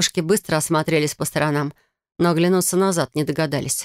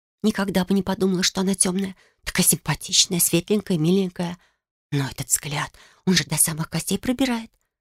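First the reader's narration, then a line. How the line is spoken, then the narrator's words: Gossiping whisper. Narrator (Russian): зашептала вторая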